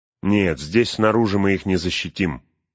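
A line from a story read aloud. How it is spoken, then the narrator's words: Plain. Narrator (Russian): сказал Эомер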